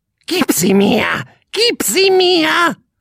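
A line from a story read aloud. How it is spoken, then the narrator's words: Croaking bird. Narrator (German): krächzte der Vogel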